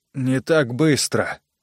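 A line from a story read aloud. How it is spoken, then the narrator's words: Mumbled. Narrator (Russian): пробормотал Джо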